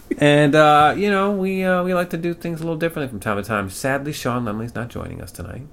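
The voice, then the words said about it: Slight put-on accent that wavers. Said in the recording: “You can definitely tell with the slight accent and the... Yeah, the accent kind of wavered. I'm horrible at maintaining accents. ... you can start off strong, but you end weak.”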